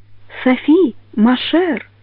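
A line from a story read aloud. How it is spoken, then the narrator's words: Said softly. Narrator (Russian): мягко говорил Галаган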